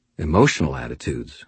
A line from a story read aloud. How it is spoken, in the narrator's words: I said quietly